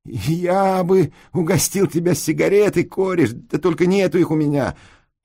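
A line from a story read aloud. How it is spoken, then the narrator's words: Whiny tearful voice. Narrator (Russian): И я плаксивым таким голосом говорю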